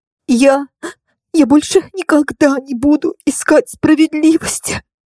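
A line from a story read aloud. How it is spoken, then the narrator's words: Barely audible through sobs. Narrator (Russian): Еле разобрала я сквозь всхлипы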